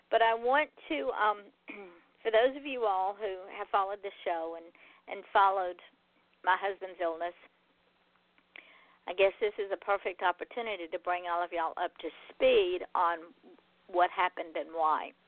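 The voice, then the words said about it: Hoarse, failing voice. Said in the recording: “I'm losing my voice, so it might not be a whole hour show.”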